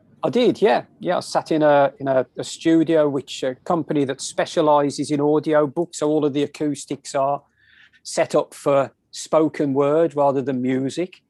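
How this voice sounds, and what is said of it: English accent. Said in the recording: “this English accent”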